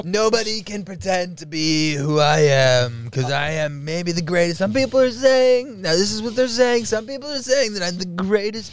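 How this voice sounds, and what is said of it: Donald Trump impression. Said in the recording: “Donald J. Trump ... most impersonated”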